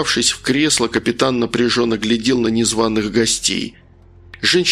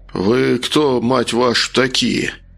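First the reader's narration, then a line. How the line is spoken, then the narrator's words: Through teeth, suppressing panic. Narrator (Russian): процедил, пытаясь совладать с нарастающей паникой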